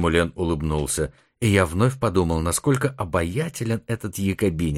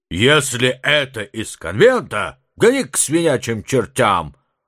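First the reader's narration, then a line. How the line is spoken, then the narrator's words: Distant booming deep bass. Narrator (Russian): прогремел из глубины квартиры густой бас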